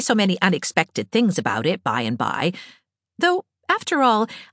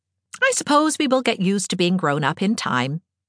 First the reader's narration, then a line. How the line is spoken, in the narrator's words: said Anne cheerfully